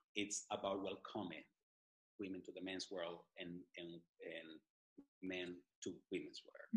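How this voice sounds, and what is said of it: Speaks with a foreign accent. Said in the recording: “Sorry for my accent ... I love your accent ... People laugh about my accent”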